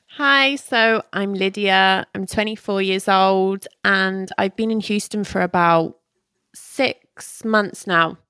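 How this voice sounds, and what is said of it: British English accent. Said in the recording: “Where'd you get that accent? It's kind of funny. ... English accent”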